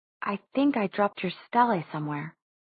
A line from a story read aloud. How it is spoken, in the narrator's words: she said softly